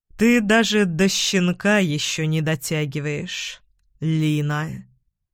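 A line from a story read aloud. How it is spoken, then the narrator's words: Slow speech. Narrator (Russian): Риспи медленно произнес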